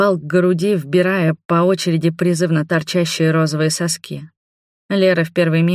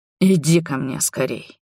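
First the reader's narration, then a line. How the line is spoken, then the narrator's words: Breathed out. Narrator (Russian): выдохнул Роберт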